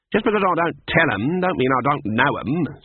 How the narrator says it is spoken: said Granny haughtily

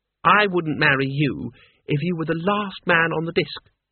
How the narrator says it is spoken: she said sweetly

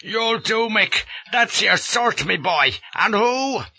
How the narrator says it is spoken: he roars at me

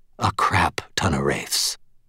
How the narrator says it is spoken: breathed quietly

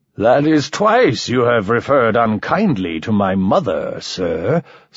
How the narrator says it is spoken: slurred Mike

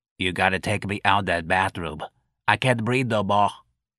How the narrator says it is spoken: Patrolman Mancuso wheezed

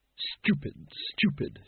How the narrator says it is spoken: she muttered, realizing the lamp was back downstairs

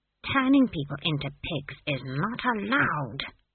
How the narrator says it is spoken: she hissed

